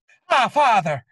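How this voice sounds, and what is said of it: Put-on Irish accent, breathy. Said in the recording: “Irish accent? That's fantastic. ... You just sound out of breath.”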